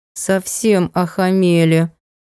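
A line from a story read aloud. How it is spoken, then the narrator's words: Princess, through clenched teeth. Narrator (Russian): процедила сквозь зубы принцесса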